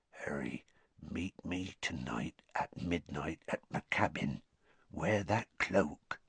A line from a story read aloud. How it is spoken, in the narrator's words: Hagrid said in a whisper so low that only Harry could hear it